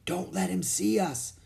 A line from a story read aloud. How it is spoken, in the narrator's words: Jack whispered